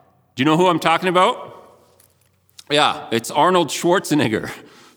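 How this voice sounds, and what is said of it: Usual voice. Nothing is said of it.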